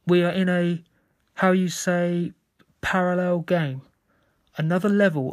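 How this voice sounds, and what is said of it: Slight foreign accent in English. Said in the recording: “The player spoke English with a slight accent.”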